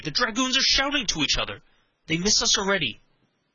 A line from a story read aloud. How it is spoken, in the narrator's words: exclaimed Henry